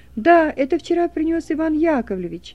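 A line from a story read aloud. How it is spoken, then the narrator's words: Loud small child. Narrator (Russian): трехлетний мальчик громко говорит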